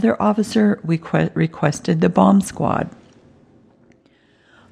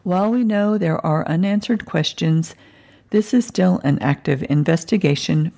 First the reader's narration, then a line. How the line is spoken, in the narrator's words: Finner said